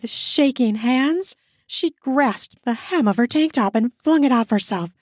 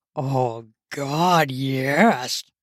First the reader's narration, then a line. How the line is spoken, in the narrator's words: he slurred